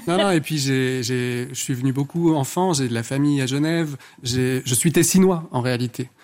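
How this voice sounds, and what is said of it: Thick Ticino Swiss-Italian accent in French. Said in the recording (French): “Ah, d'où l'accent. ... C'est cet accent à couper au couteau.”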